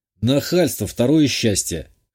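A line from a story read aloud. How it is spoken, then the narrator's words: Amused snort. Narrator (Russian): хмыкнул я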